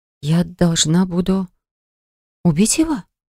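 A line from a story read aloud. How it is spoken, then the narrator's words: Whisper. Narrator (Russian): прошептала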